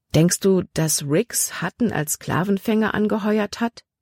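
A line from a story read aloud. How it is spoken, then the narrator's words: Plain question. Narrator (German): fragte sie Caleb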